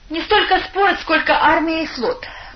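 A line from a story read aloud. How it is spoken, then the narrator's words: Laughing. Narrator (Russian): рассмеялся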